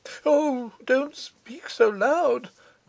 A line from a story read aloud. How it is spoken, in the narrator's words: cried the little artist